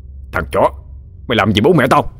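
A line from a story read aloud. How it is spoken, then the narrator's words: Shout through gritted teeth. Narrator (Vietnamese): Gã Trường nghiến răng quát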